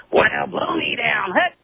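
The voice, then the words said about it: Popeye cartoon sailor voice impression. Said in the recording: “Anyone trying to impersonate oh, Popeye. No matter how it's bad. A very, very difficult impersonation.”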